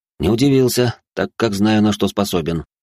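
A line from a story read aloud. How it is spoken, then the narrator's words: Calm reply. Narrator (Russian): спокойно ответил я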